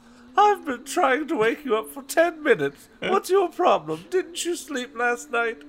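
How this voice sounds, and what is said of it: Reads the line in a mom voice. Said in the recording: “I've been doing the wrong mom voice.”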